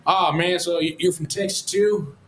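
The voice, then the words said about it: Imitated West Texas accent. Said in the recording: “I'm going to try to do his Texas accent as best as I can because he has a West Texas accent.”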